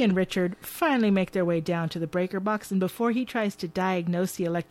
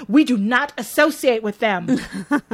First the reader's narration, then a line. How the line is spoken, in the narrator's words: she shouts